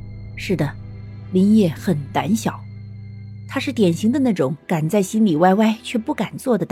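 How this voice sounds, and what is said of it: Usual voice. Nothing is said of it.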